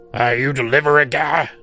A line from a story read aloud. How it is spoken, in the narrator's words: he barked at me